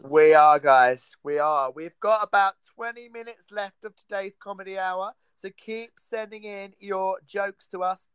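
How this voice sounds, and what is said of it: Scandinavian accent. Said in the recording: “he's Scandinavian just by the accent.”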